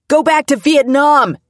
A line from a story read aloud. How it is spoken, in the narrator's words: someone yelled